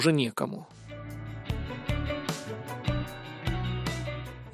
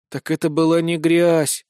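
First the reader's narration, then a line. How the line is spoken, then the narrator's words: Disappointed exhale. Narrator (Russian): разочарованно выдохнул я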